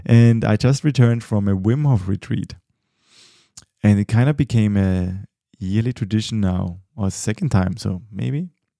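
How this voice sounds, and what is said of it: Tired, exhausted-sounding voice. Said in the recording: “Quite exhausted, and you might hear it from my voice. It sounds, yeah, my voice is a bit exhausted as well.”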